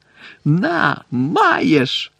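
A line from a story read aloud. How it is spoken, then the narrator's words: Joyful yell. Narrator (Ukrainian): радісно заволав Рон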